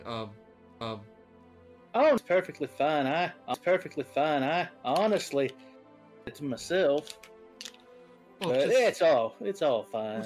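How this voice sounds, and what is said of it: Strange put-on character accent. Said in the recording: “Oh, interesting accent ... kind of a strange accent”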